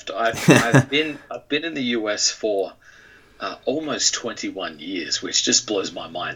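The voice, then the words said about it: Slight Australian accent. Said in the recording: “I do have a little bit of an accent left”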